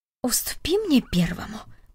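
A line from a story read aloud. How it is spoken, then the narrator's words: Old man's whisper. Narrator (Russian): прошептал дедушка Дик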